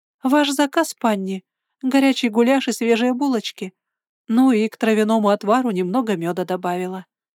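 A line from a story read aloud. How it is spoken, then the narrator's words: Cheerful. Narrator (Russian): сказала она весело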